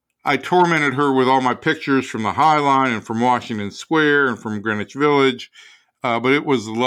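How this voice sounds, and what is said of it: Usual voice. Nothing is said of it.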